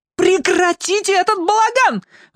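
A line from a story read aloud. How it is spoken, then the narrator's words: Shriek. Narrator (Russian): взвизгнула Аделина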